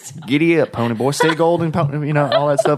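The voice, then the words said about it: Put-on Western cowboy voice. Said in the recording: “I can sound Western ... Like a cowboy.”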